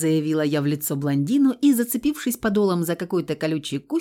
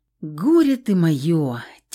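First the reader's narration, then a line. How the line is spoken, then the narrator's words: Heavy exasperated sigh. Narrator (Russian): тяжко вздохнул Феникс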